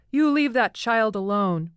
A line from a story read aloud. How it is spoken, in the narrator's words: shouting